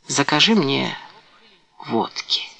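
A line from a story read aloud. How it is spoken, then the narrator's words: Whisper. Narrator (Russian): прошептал Карл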